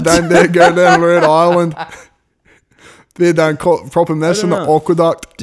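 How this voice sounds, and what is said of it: Put-on Scottish accent. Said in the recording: “That is maybe a little more Yorkshire... I might have a half decent Scottish accent”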